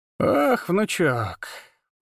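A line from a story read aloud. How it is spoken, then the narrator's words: Drawling, mocking. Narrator (Russian): протянула она с характерной издевкой в голосе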